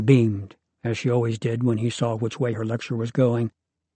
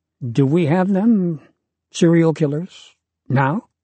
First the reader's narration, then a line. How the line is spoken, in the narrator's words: Hesitantly, he asked Miss Weiss